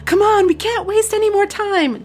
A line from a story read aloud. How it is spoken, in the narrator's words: Jessica shrieked